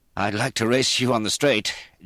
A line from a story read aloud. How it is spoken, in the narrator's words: Jay panted